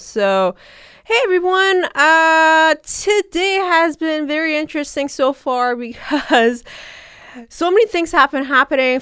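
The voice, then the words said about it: Sick, nasal voice. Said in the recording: “I'm kind of sick, so please do excuse my weird voice right now. It's just really nasally ... I do sound a bit weird today. My voice sounds a bit weird”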